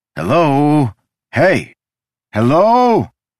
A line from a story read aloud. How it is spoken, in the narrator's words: He waved his arms and shouted